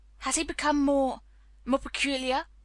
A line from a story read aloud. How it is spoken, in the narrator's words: her master asked, knitting his brows anxiously